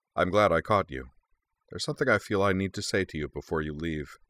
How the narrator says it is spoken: Horigome said gravely

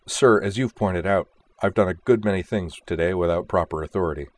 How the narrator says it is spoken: Kozue replied stiffly

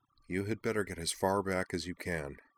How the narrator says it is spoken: Nall murmured to Umi

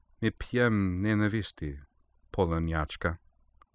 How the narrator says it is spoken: replying quietly

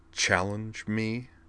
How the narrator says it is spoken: she echoed, her voice dangerously tight

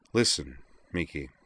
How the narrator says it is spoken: she said quietly

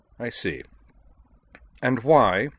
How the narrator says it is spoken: said more coldly still

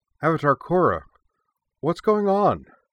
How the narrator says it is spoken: cried out one of the monks, an airbender named Shespa

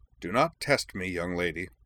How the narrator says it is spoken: said the Duchess coldly

